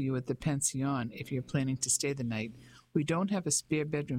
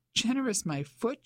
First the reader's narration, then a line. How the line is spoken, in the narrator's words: she exclaimed